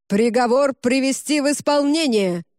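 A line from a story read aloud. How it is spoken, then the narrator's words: Distant barked proclamation. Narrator (Russian): Рявкнул внизу глашатай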